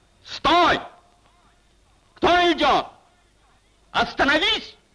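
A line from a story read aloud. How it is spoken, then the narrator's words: Shouted. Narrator (Russian): крикнул голос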